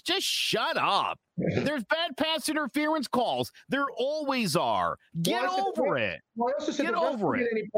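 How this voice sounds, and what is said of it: Yelling, angry loud voice. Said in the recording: “Are you yelling at us on our show? ... I'm yelling at everybody.”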